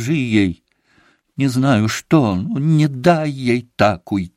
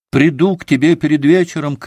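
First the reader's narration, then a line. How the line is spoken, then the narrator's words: Shout. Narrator (Russian): крикнул Алеша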